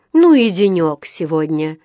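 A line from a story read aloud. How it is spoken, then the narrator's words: Weary sigh. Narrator (Russian): вздохнула миссис Браун, когда сверху донесся стук молотка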